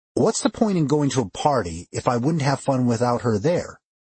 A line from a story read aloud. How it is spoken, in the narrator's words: I asked